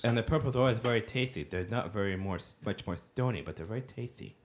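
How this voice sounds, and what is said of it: Quiet, congested voice. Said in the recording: “Speak up a little bit. ... I'm sorry, I have a cold.”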